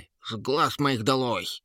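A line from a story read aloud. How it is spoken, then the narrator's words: Loud bark. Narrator (Russian): гаркнула Троллиха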